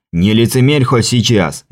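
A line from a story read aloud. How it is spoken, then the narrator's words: Bark. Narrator (Russian): рявкнул поэт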